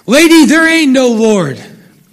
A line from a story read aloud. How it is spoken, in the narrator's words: he would get so angry at her proclamations that he would shout